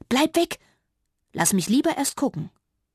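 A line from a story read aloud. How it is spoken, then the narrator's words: Sighing. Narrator (German): seufzte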